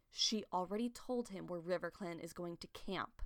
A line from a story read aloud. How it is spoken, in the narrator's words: she said quietly